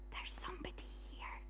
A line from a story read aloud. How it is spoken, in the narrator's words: Josh whispered